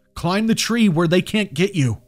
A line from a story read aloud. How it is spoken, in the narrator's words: he shouted